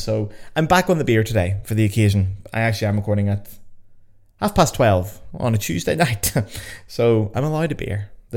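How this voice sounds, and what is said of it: Toned-down Belfast Northern Irish accent. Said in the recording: “a subject very close to my wee Belfast heart ... I keep my accent, although I do tone it down slightly for you guys”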